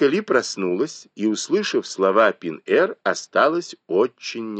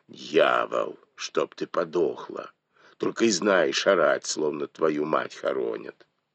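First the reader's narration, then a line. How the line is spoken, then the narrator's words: Angry old woman, gritted teeth. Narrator (Russian): Старуха заскрежетала зубами от злобы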